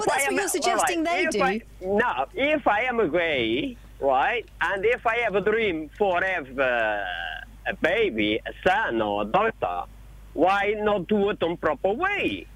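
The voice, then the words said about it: Portuguese-accented English. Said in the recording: “I'm trying to place your accent. ... I am a Portuguese”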